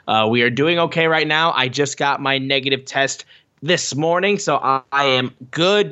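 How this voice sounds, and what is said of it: Lower voice, slightly sore throat. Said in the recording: “my voice may sound a little bit lower than usual ... Just a little bit of throat soreness”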